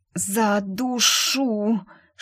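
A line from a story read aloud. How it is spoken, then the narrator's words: Hissing drawl, woman in labor. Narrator (Russian): шипя протянула роженица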